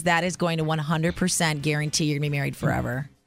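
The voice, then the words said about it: Sarcastic delivery. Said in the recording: “can you tell I'm being sarcastic?”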